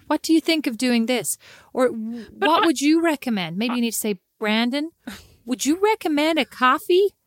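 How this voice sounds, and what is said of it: Put-on American accent. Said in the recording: “that amazing American accent. I've been practicing for 13 years.”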